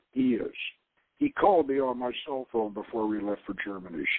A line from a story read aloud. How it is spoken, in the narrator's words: she murmured